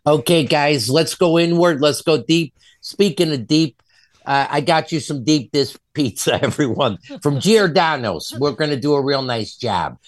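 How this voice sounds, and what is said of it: Hardcore Chicago accent. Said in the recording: “he has a hardcore Chicago accent”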